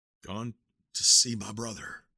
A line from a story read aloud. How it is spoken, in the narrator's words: whispered